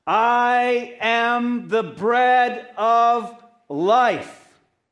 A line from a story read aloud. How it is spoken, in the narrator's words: Jesus declare in a loud voice